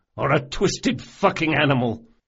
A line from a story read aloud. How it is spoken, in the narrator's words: spat